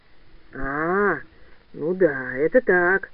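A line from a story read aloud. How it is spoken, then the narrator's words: Muffled old man, coughing. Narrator (Russian): глухо сказал дед, покашливая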